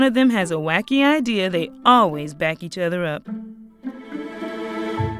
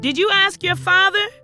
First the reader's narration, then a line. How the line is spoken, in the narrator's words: She shouted back